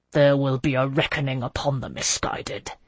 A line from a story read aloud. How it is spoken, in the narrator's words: the prefect muttered through clenched teeth